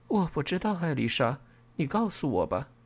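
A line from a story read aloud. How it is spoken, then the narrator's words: Displeased muttering. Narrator (Chinese): 我有些不悦的嘟囔了一句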